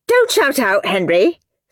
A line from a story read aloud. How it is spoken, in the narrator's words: snapped Miss Battleaxe